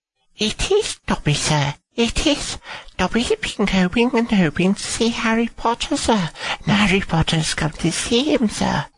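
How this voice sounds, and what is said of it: Impression of Dobby. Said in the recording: “doing an impression of Dobby ... Wow, that was good.”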